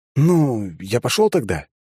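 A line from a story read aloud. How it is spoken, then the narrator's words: Uncertain asking. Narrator (Russian): неуверенно поинтересовался я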